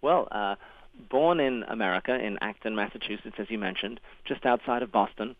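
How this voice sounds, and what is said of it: Non-American accent. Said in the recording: “in spite of your accent, you were actually born in Massachusetts... My mum's English, my dad was Australian”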